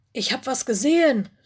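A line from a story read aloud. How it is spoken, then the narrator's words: Call. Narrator (German): rief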